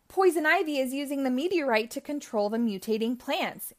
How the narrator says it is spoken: yelled Wonder Woman

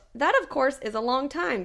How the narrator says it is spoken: Pickett said

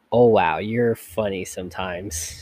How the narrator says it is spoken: said

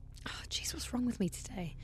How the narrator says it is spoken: I muttered under my breath

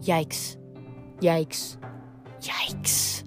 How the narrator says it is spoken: Ella was curled up in the front, her head tucked under her wings, muttering

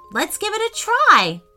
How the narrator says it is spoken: exclaimed Declan

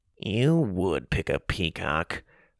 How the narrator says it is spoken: Augustus mumbled

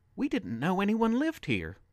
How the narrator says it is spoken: Natalie pleaded

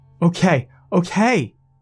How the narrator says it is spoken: I shouted

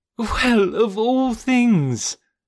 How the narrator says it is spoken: cried the equally astonished Jane

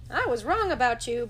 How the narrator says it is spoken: Bugs said

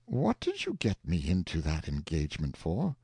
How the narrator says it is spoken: the uncle reproached the nephew gently, saying

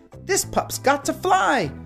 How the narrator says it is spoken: Sky exclaimed

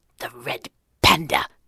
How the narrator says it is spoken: the thin man practically spat

